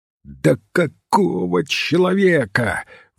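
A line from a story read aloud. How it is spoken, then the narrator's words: Hoarse, cracking exclamation. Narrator (Russian): воскликнул магистр, и хриплый его голос сорвался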